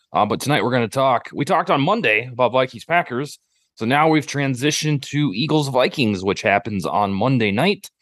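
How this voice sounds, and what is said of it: Voice sounds a little off. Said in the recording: “my voice is a little funky tonight. I do not know why”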